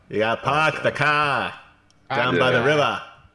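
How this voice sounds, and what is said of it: Exaggerated, poorly done Boston accent. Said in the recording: “How does a Boston accent go? ... we just butchered their accent.”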